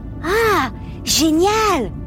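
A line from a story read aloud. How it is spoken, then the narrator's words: Very enthusiastic shout. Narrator (French): cria Louis très enthousiaste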